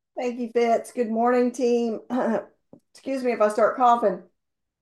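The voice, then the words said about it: Slightly hoarse, strained voice. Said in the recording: “losing my voice a little bit”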